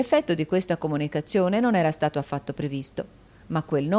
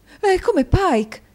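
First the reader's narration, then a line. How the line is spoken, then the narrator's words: Woman exclaiming. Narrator (Italian): esclamò la signora Nickleby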